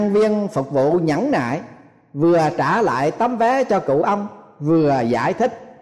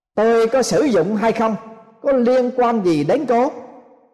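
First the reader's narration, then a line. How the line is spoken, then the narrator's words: Angrier old man. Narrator (Vietnamese): Ông cụ tỏ ra tức giận hơn nữa và nói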